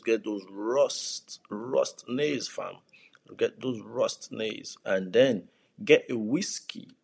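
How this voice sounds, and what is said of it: Speaks with a noticeable accent. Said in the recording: “excuse my accent, excuse the way I talk”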